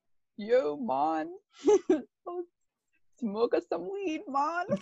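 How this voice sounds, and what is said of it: Put-on Jamaican accent. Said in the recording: “now do Jamaican.”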